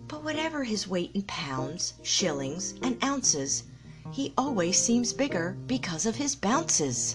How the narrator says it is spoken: Pooh was thoughtful when he heard this, and then he began to murmur to himself

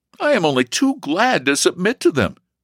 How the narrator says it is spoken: he eagerly replied

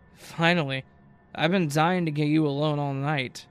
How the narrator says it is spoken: Dylan slurred, clearly way more drunk than before the club

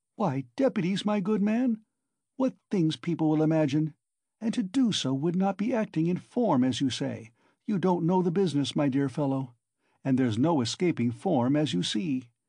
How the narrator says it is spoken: Porfiry muttered

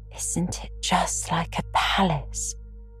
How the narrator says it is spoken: whispered Diana

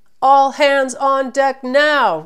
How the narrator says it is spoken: roared Jeff and Taylor

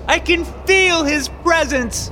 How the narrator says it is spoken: She shouted eagerly to the congregation

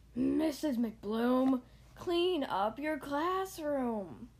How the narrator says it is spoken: They all grumbled

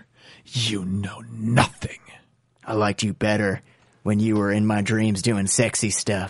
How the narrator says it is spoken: She says in a whisper that sounds like many shards of broken glass clanking together

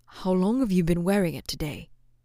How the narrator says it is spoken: Flint asked

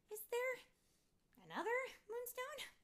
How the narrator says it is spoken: Fairy Merry laughed

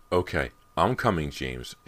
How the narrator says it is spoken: she said sharply

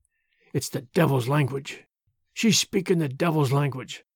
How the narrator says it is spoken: She muttered constantly

